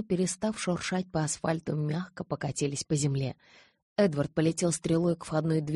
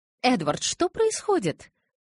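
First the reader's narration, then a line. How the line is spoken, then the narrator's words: Indignant question. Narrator (Russian): возмущенно спросила Таня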